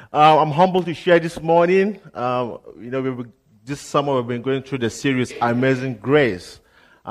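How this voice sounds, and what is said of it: Nigerian accent. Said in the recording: “this accent is different. So I'm from Nigeria”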